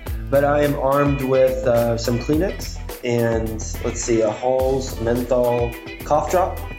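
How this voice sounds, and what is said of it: Voice sounds off, slightly sick. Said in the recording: “my voice sounds different, and that's because I've got a little bit of a cold ... My voice just isn't quite up to par”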